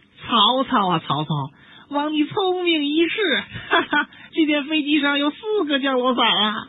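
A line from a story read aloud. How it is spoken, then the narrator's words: Laughing from above. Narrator (Chinese): 上面诸葛亮的笑声传来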